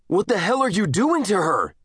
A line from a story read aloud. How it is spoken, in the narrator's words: He screamed